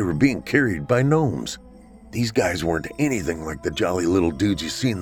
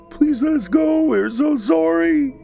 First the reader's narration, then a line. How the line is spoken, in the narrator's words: wailed the young boys, clearly distressed